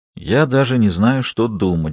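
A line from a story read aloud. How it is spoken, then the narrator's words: Sighed. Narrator (Russian): вздохнул Пирс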